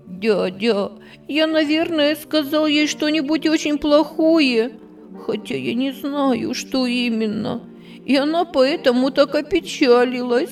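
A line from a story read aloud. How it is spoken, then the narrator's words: Sobbing. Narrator (Russian): всхлипывая, говорил Андрейка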